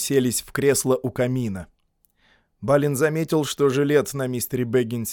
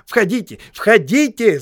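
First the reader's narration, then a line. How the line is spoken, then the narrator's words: Shout. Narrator (Russian): закричал Бильбо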